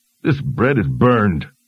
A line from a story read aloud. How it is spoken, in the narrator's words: sighed